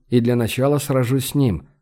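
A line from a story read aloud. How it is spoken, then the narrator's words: Plain. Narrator (Russian): ответил наследник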